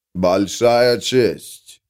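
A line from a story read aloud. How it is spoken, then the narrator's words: Booming deep bass. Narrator (Russian): прогудел темнокожий таким гулким басом, какого она никогда не слышала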